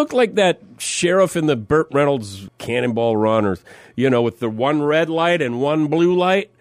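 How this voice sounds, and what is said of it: Usual voice. Nothing is said of it.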